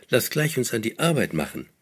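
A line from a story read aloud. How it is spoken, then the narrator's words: Called with cheerful laughter. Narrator (German): rief sie jetzt mit fröhlich Lachen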